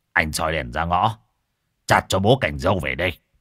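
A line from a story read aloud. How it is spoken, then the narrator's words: Exasperated shout. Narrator (Vietnamese): Không chịu được nữa, ông quát con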